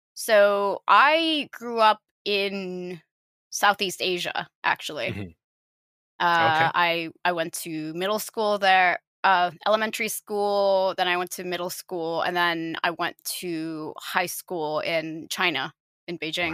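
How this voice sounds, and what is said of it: International-school English accent, American-sounding. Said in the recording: “It explains the accent, which is why a lot of people ask me, like, are you American? ... are you Canadian then? ... I have the international school accent”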